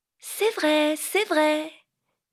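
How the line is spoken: Shrill voice. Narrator (French): dit Vinca d'une voix perçante

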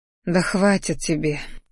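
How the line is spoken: Sighing. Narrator (Russian): вздохнула я, понимая, что Кириан места себе не находит

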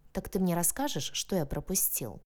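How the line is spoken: Calm question. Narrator (Russian): Уже спокойно переспросил он

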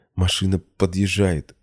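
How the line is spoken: Trembling voice. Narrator (Russian): дрожащим голосом отвечает она

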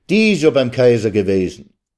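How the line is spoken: Calling out. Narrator (German): rief man ihm entgegen

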